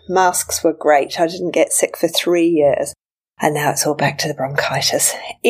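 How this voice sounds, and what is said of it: Deep, chesty voice with a cold. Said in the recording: “I've got a cold... the deep and sexy me... this is the way I sound when my colds start going to my chest”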